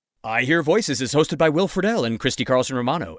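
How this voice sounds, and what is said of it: Announcer voice. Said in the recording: “that was my announcer voice”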